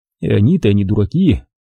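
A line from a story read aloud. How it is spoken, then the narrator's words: Sighing agreement. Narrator (Russian): Вздохнув, согласился я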